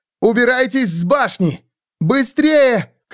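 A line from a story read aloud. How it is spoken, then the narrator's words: Shout. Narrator (Russian): крикнула Кэт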